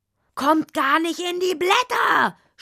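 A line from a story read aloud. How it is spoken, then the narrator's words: Hedgehog shouting back. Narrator (German): schrie der Igel zurück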